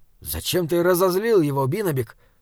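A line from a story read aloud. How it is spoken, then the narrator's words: Whisper. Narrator (Russian): шепнул Саймон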